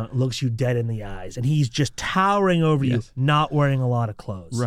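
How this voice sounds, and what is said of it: Usual voice. Nothing is said of it.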